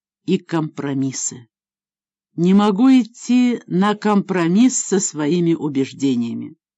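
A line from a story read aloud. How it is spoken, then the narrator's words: Serious tone. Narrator (Russian): серьезным тоном добавила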